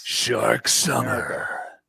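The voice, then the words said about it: Dramatic movie-trailer announcer voice. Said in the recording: “Oh, that's a good voice. That's your In a World voice”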